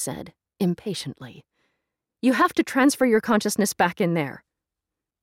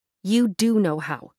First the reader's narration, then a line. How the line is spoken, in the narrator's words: Kim said firmly